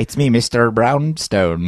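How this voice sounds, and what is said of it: Put-on Irish accent. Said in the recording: “Please don't be offended by my Irish ... accent ... said your Irish accent was pretty good.”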